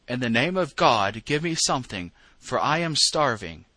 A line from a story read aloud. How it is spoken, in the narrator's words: the beggar cried